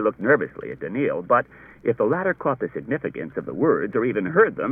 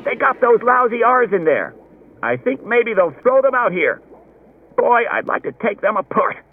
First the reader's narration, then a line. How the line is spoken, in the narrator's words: Someone else said excitedly